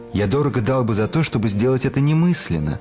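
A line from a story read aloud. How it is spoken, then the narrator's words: Plain. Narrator (Russian): говорит Обтесов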